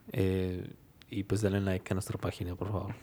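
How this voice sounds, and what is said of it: Romantic radio announcer voice. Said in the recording (Spanish): “ese último pedazo se dio bien bien de locutor de acá, bien cabrón, locutor romántico ... te salió la voz bien de locutor ... voz de locutor”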